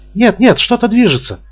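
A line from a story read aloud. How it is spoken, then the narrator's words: Exclaiming. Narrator (Russian): воскликнула Тесса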